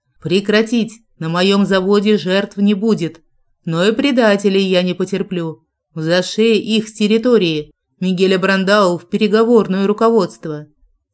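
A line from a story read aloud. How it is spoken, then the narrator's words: Growl through loudspeaker. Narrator (Russian): Джек рыкнул в громкоговоритель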